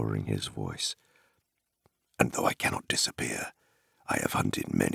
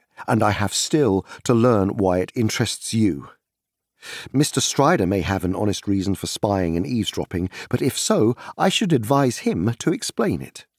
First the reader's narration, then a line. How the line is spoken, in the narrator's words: said Frodo angrily